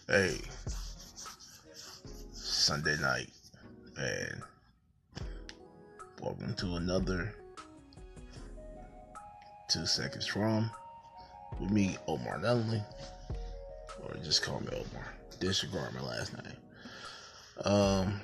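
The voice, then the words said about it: Deliberately deepened voice. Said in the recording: “Trying to get my best deep voice on, I'm trying to work on that”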